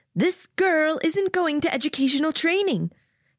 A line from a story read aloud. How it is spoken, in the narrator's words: he says in a high voice that pierces my eardrums and doesn't fit with his bulky build